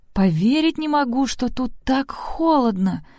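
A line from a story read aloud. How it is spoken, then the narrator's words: Muffled moan. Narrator (Russian): простонала Сэнди из своего кокона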